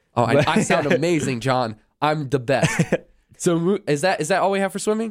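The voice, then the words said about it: Voice slightly off from a cold. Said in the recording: “in case you haven't been able to pick up, I am getting over a cold currently ... my voice is just a little off”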